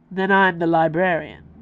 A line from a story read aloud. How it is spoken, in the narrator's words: he said in a voice that was more drawl than raw